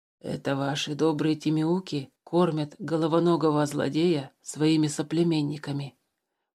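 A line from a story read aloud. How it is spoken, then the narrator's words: Whispered into ear. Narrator (Russian): прошептал Тулис на ухо Туупаню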